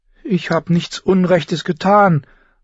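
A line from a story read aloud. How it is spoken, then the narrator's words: Pleading. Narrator (German): flehte Sansa ihn an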